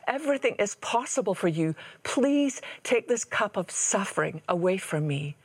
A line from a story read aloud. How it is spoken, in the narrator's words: He cried out